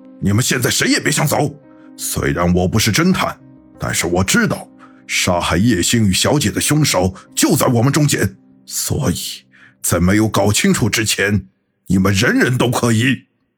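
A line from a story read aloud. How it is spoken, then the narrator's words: Angry roar. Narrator (Chinese): 王龙却怒吼道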